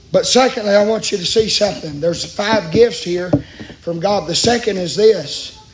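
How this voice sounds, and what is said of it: Hoarse, worn-out voice. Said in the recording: “My voice is about shot.”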